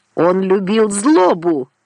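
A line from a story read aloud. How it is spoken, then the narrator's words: Shouted. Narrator (Russian): крикнул Орло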